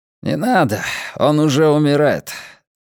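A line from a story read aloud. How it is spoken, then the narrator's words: Sighing. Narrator (Russian): Оша вздохнул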